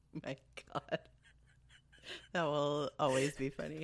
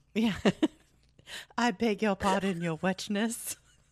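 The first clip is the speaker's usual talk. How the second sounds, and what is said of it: Snobbish British accent. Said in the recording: “You have like a very like pronounced. ... British. ... Snobbish. ... Snobbish. Accent.”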